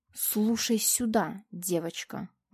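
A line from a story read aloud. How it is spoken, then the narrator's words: Menacing hiss into ear. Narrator (Russian): грозно зашипела я ей в самое ухо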